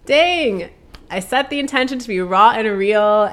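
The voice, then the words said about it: Tearful, emotional voice. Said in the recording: “I'm about to get emotional. ... classic, classic Cancer tears”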